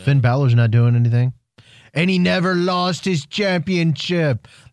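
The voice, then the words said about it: Poor attempt at Irish accent. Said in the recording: “That was awful. I'm sorry. That was my bad. That was horrible accent. I tried to do a Irish accent... That was awful.”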